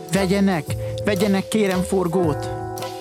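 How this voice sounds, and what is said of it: Pleading voice. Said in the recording (Hungarian): “Szólt könyörgő hangon”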